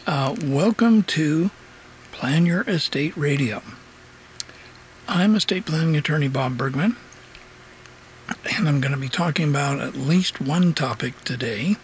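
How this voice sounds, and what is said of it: Hoarse, froggy throat. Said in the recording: “got a little bit of a frog in my throat today. A little bit hoarse.”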